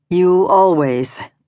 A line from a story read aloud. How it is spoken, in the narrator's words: says sadly